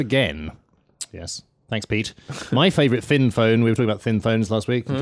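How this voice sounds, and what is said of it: Usual voice. Nothing is said of it.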